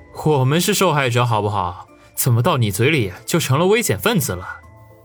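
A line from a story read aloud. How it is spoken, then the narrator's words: Chuckling. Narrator (Chinese): 小胡子嘿嘿一笑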